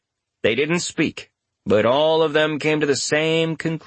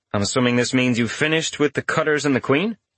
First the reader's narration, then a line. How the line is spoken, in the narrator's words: Richter asked him